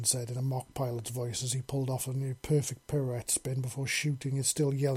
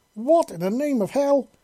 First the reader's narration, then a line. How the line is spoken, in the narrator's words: Visa yelled